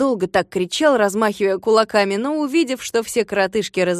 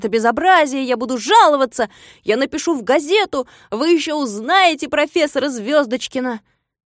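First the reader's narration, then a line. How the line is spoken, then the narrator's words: Shouting. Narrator (Russian): закричал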